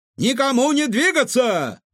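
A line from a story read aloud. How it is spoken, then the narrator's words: Shouting. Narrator (Russian): закричали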